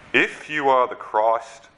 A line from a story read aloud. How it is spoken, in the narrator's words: they said